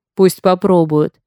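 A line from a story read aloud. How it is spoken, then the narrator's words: Booming drone. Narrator (Russian): прогудел Хок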